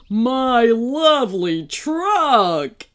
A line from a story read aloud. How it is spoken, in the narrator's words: he whined